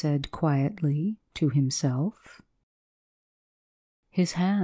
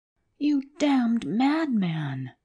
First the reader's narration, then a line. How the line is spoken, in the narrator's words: shrieked the manager